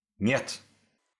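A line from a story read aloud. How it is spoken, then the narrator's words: Barked. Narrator (Russian): рявкнул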